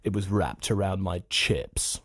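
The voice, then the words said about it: Rich, final, disdainful posh delivery. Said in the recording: “a rich delivery. It's very kind of final ... The disdain is coming through”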